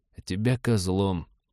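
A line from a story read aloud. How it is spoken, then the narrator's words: Muttered into silent comm. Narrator (Russian): пробормотал в замолкший ком-абордажник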